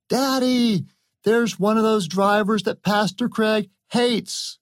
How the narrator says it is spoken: his young son, Alex, who shouted out

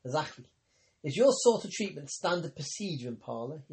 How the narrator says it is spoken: asked

